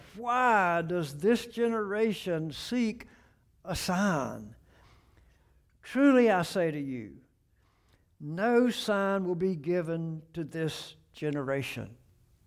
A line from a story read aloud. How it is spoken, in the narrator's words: he sighed deeply in his spirit and said